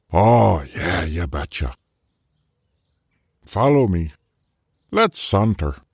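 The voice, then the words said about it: Character voice with an unplaceable accent. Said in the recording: “I've got no idea where this Wendigo's accent is from”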